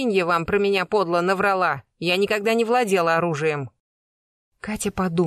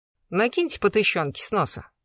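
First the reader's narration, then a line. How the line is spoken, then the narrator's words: Businesslike declaration. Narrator (Russian): заявила самым деловым тоном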